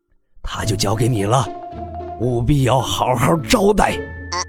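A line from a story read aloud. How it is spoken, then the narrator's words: Stiff, through gritted teeth. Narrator (Chinese): 那慈祥的老者 有些僵硬的 咬牙道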